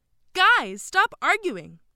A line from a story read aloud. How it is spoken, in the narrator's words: Jessica shouted